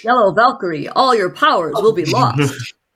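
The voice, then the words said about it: Game announcer voice. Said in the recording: “announcer voice”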